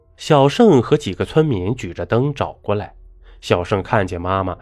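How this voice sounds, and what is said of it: Usual voice. Nothing is said of it.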